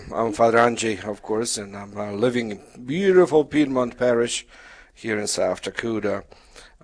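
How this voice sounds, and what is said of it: Polish accent. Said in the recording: “My background is Polish, so that's the accent.”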